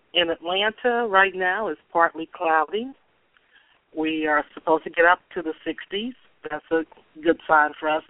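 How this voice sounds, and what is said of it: Slightly strange voice, oncoming cold. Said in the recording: “I feel like I'm trying to catch a cold. So if my voice sounds a little bit strange”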